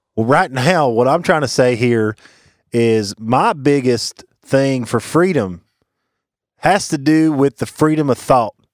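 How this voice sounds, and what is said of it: Put-on Southern accent. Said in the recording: “Southern accents starting now”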